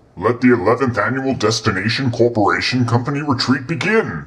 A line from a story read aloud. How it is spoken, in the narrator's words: Ted Naders proclaimed